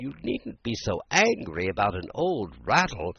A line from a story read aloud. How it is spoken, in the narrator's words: said in a soothing tone